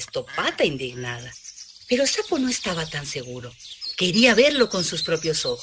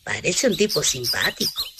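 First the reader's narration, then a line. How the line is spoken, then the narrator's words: Plain. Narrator (Spanish): dijo Sapo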